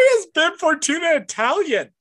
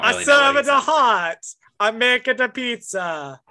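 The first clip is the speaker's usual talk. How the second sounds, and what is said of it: Bad put-on Italian accent. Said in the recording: “that's the worst Italian accent I've done ... doing an Italian accent like that”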